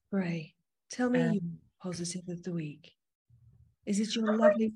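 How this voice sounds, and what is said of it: Very low, deep podcast voice. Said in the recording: “Maybe that should be my podcast voice. Maybe I should just go really low”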